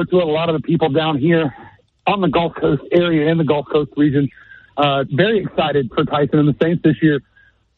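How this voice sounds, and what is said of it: Out of breath, panting speech. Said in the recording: “Why are you so out of breath?”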